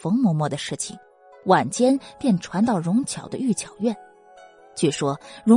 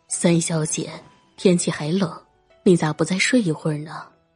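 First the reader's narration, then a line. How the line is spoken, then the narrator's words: Plain. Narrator (Chinese): 说着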